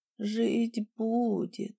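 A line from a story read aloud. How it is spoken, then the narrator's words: Weak voice. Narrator (Russian): сказала слабым голосом ведьма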